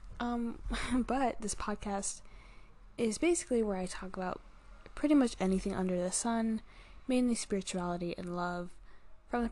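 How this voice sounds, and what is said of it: Slurred speech. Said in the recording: “I'm slurring my words so bad today”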